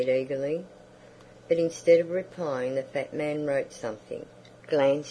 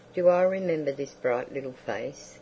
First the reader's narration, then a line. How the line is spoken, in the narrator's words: he said softly